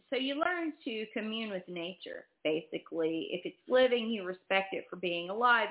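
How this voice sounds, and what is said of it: Slight backwoods Texas accent. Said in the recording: “I'm a country girl. I grew up backwoods Texas in the middle of nowhere... the accent starts to just slip out... it's not fully out, but it's out”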